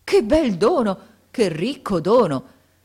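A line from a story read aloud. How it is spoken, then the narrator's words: Joyful exclamation. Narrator (Italian): Rimesso dallo stupore, esclamando con un trasporto di gioia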